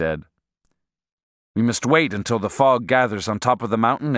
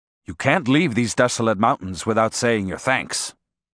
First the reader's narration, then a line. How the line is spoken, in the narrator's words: he said in a firm tone